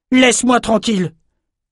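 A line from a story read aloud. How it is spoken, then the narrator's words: Shouted. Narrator (French): cria Bannon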